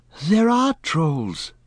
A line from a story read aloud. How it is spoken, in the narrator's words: Pippin panted